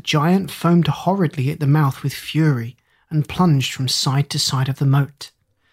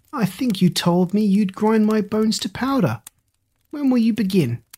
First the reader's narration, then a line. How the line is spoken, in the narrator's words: Jack laughed and jeered at him, saying